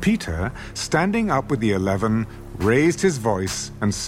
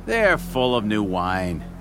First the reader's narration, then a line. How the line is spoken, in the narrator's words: Others, mocking, said